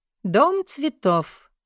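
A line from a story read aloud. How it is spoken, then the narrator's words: Loud. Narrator (Russian): громко произнесла Орна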